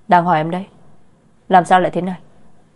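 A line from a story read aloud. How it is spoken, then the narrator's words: Angry questioning. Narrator (Vietnamese): Mạc Thanh đã tức giận hỏi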